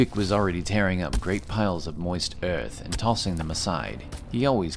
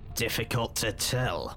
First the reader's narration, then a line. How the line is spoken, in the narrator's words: responded Dithkinir, his voice grinding